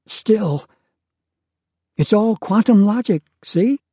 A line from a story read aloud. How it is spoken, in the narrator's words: She said brightly